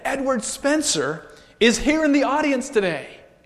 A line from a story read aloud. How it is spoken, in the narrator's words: A man in the audience called out and said